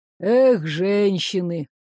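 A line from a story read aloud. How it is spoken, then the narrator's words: Sighing. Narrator (Russian): вздохнул Дёрг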